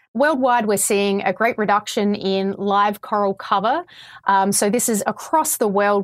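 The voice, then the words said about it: Australian accent. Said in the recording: “I can hear your Australian accent.”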